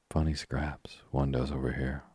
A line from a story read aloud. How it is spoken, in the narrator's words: murmured Tommy